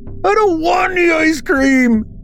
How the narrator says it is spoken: Braden screamed

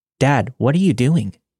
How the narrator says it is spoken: I asked

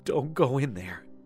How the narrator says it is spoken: Daniela sobbed and said

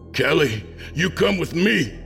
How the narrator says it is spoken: I shouted

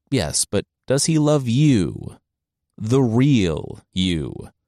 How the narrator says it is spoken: the sister asked

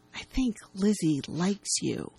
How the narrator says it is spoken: Matt says to Colin in a hushed tone

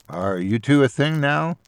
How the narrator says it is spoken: I laughed

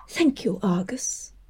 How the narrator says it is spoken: she whispered

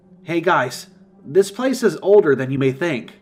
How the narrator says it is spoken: I shouted

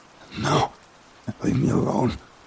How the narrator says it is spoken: I murmured, feeling hot, and I swayed

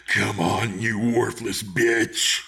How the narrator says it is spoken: He barked into the darkness

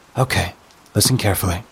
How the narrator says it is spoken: she says, her voice low and urgent

